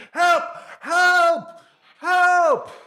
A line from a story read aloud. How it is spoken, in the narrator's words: he starts shouting